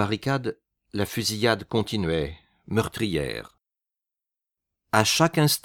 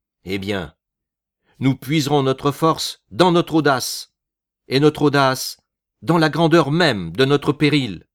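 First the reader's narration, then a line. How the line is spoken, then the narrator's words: Exclaiming. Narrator (French): il s'écria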